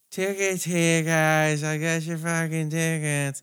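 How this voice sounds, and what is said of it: Imitates another person's voice. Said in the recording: “even do the tickets voice ... I can't do it like him”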